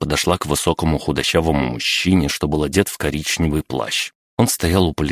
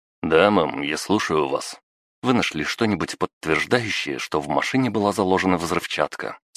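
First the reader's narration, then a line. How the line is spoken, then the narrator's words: Plain. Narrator (Russian): спросила женщина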